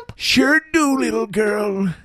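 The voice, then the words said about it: Old man voice. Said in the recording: “That was the best old man voice.”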